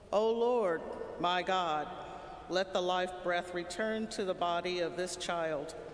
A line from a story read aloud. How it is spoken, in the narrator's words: called out to the Lord